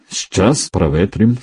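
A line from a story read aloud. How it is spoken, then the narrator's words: Calm, clipped. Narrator (Russian): спокойно отчеканил Армен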